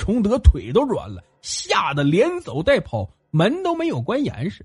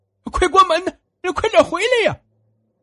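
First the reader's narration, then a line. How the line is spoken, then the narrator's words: Frightened shout. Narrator (Chinese): 莫大娘吓得喊道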